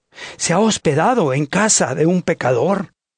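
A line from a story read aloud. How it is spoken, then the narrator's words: Crowd muttering. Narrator (Spanish): todos murmuraban y decían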